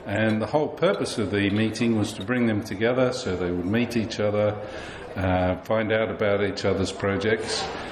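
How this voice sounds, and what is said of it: Australian accent. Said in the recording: “So your accent, you're not from Somerset area? ... No, I'm from Australia.”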